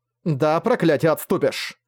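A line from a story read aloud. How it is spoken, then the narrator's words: Still angry. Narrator (Russian): все еще сердито сказала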